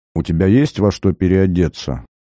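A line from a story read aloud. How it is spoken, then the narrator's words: Teacher's dry question. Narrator (Russian): спросила учительница сухим тоном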